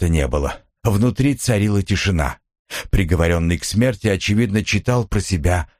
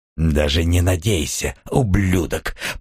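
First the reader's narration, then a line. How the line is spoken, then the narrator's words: Growl muffled through door. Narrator (Russian): прорычал Сильвен сквозь дверь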